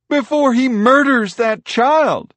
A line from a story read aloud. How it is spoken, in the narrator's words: a woman yelled